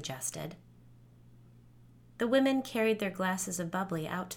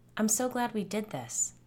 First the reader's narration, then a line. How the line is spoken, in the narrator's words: Asia said